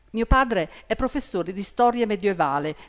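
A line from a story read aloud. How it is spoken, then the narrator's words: Plain. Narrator (Italian): disse Douglas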